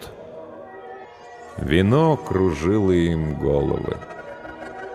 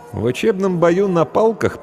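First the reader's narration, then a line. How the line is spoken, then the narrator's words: Dismissive snort. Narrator (Russian): пренебрежительно хмыкнул Эшт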